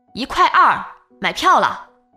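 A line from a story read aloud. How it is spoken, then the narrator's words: Conductor shouting loudly. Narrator (Chinese): 售票员在我耳边大声喊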